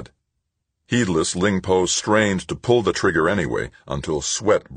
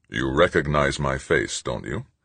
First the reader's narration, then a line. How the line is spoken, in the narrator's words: Stoner asked calmly